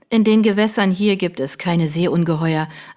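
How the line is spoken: Firm voice. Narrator (German): erwiderte Mary mit fester Stimme

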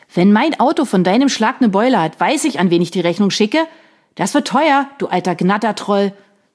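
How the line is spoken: Angry shout. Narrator (German): schrie Sean, jetzt jedoch sichtlich verärgert

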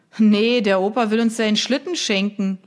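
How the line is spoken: Laughing. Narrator (German): lachte ein anderer

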